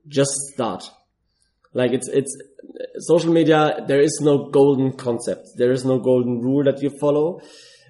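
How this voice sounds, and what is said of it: German-accented English. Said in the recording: “I have a weird German accent”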